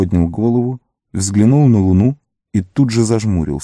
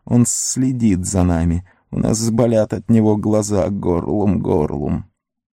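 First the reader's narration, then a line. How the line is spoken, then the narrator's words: Throaty hiss growing louder. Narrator (Russian): горлом шипел все громче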